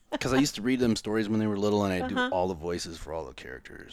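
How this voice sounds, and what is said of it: Deep, resonant radio-style voice. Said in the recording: “Listen to this voice. It's like deep and like it's good radio voice.”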